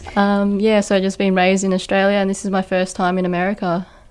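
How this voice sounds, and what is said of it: Australian accent. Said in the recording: “pretty much raised in Australia, hence my accent.”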